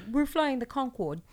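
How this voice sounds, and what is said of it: Muddled put-on European accent. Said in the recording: “I have no idea what that accent was. It was like six different. It was the entire European Union rolled into one accent... It was my Bridget Jones.”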